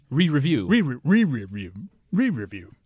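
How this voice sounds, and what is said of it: Scooby-Doo cartoon dog voice. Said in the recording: “You turn into Scooby-Doo.”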